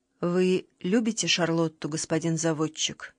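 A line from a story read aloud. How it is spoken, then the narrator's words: Weak voice. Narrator (Russian): спросила она слабым голосом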